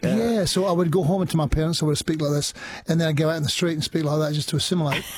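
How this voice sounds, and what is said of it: Scottish accent. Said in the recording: “You sounded very Scottish these days.”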